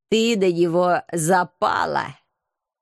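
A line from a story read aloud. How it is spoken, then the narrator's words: Mocking snort. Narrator (Russian): Насмешливо фыркнул агент 013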